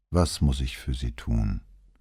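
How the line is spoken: Tired, resigned question. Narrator (German): fragte, ihre Stimme klang jetzt müde und resigniert

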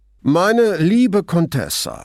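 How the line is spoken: Loud voice. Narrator (German): sagte er mit lauter Stimme

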